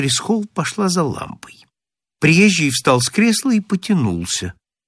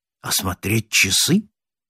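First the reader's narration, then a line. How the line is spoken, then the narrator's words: Sleepy question. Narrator (Russian): спросил приезжий, сонно оглядываясь кругом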